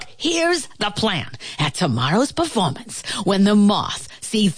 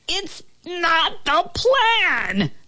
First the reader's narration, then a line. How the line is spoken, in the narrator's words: the ant yelled